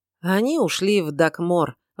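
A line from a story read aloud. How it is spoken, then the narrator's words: Knight's sigh. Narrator (Russian): вздохнул рыцарь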